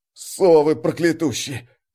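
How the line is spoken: Hiss. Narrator (Russian): Прошипел колосок

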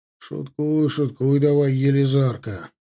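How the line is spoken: Grumbled. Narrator (Russian): буркнул Лыков

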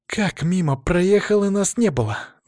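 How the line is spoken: Indignant exhale. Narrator (Russian): выдохнула возмущенно Алина

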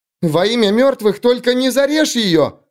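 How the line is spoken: Shrill squeal. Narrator (Russian): взвизгнула Рикке

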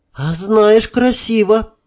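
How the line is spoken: Surprised sincere sigh. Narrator (Russian): немного удивленно, но искренне призналась она и вздохнула

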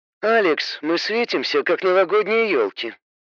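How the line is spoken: Grumbling. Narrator (Russian): проворчала тень

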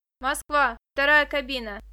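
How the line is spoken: Young woman shouting. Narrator (Russian): крикнула девушка

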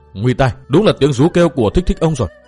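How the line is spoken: Shocked muttering. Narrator (Vietnamese): chàng đã thất kinh và lẩm bẩm nói

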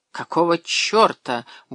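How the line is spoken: Gruff mutter. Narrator (Russian): буркнул Гельмут

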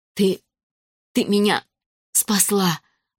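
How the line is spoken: Breathless exhale. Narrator (Russian): выдохнула Мардж

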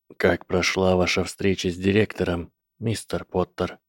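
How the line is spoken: Quiet question. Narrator (Russian): тихо спросил профессор защиты

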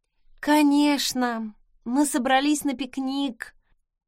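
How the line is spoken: Sour sigh. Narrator (Russian): кисло вздохнула я

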